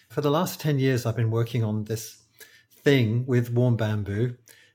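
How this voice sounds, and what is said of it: British accent. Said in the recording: “I'm a British acupuncturist. I think you can probably tell from my accent”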